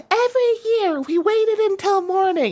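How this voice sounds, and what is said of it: Imitates another person's voice. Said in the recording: “That impersonation.”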